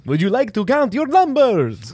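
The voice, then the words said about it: The Count's Transylvanian accent. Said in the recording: “The count ... he's a vampire. She's got like a Transylvanian accent. ... Oh, hey, that was good.”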